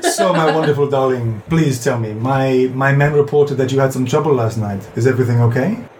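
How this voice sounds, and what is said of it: Put-on British accent. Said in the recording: “I can speak with a British accent.”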